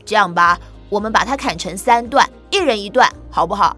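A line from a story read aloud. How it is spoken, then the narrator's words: Plain. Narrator (Chinese): 老三边说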